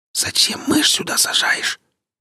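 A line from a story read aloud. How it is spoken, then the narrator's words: Whisper. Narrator (Russian): прошептал Гриф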